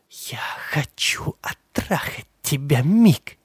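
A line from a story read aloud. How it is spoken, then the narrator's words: Whisper. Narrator (Russian): прошептала Карен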